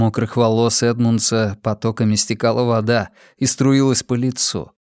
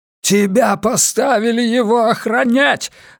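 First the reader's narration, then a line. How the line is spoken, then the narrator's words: Tearful yelling. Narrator (Russian): орал Симмонс, в глазах которого стояли слезы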